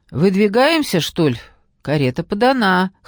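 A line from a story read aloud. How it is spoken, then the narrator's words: Chuckling. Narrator (Russian): хохотнул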